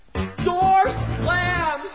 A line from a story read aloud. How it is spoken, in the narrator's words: People yell